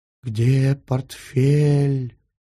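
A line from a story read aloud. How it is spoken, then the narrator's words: Ghost's hissing whisper. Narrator (Russian): Свистящим шепотом спросил призрак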